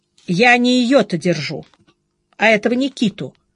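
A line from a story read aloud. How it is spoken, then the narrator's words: Stern reply. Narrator (Russian): строго ответил Володя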